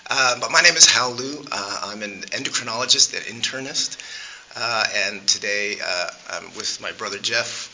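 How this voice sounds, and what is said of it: Somewhat hoarse, weak voice. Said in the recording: “my voice is a little out today”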